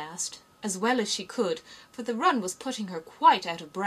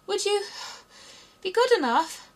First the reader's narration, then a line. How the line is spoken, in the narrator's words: Alice panted out, after running a little further